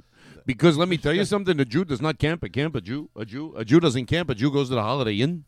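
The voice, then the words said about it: Imitates another person's voice. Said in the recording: “You think that's a good impression of me? ... It's a lousy impression.”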